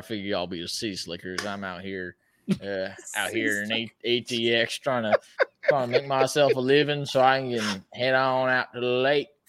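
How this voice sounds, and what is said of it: Exaggerated country twang accent. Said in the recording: “He's got the whole accent down. It actually sounds really good ... I kind of twang it up a little bit”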